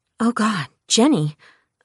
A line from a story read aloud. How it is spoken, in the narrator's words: I breathed